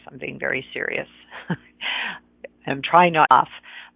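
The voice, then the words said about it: Mock-serious voice. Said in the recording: “So this is my serious voice.”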